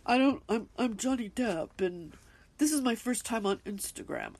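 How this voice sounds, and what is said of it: Imitates another person's voice. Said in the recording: “the way he talks? ... it's just this accent that he has.”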